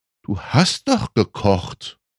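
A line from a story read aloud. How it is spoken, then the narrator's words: Gentle. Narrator (German): sagte Mutti sanft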